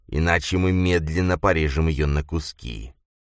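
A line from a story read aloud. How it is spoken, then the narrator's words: Hissed. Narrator (Russian): прошипел Грис Дарренту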